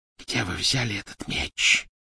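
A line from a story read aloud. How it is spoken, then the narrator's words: Hissed. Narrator (Russian): прошипела она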